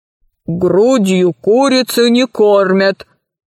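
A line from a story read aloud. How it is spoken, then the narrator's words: Low booming drone. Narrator (Russian): прогудел владелец бара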